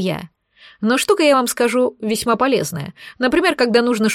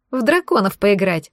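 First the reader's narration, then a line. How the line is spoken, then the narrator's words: Laughing. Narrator (Russian): засмеялась Олеся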